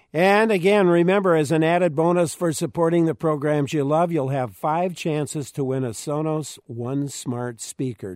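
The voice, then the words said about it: Hoarse, strained voice. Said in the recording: “excuse me, I'm losing my voice.”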